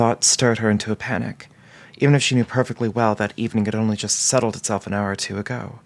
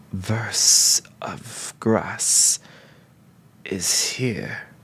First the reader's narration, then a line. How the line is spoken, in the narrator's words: he rasped